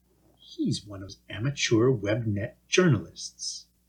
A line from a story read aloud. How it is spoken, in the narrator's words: murmured